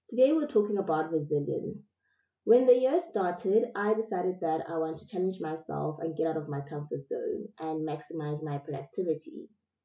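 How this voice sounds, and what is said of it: Sick, flu-affected voice. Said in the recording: “my voice sounds weird today because I'm so sick. I've got flu”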